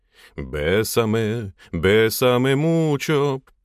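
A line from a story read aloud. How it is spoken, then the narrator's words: Drawling. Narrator (Russian): протянул внутренний фаталист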